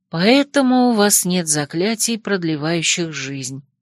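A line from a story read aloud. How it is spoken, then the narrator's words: Sad voice. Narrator (Russian): грустно закончила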